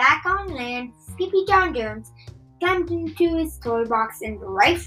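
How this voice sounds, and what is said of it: Usual voice. Nothing is said of it.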